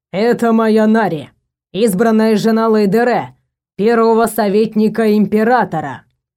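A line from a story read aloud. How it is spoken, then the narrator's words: Booming over a square. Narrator (Russian): прогремели над площадью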